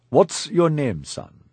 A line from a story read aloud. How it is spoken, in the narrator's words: he asked